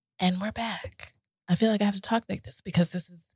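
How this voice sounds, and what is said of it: Soft, calm, relaxing voice. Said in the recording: “It is relaxing... Stop talking in that common ass voice”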